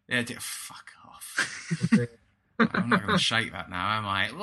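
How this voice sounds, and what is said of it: Usual voice. Nothing is said of it.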